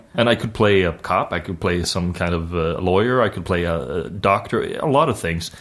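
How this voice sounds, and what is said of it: Swedish accent in English. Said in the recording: “my actual Swedish accent”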